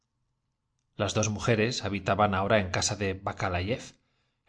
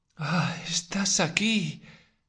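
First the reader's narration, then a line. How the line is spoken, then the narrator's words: Voice trembling with emotion. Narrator (Spanish): dijo con voz temblorosa a causa de la emoción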